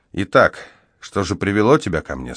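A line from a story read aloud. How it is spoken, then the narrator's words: Plain. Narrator (Russian): спросил я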